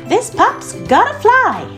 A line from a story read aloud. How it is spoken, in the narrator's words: Skye exclaimed